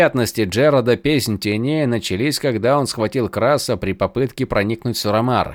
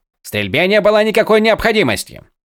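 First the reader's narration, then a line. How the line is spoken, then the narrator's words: Sharp interruption. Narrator (Russian): Резко оборвал их Харидан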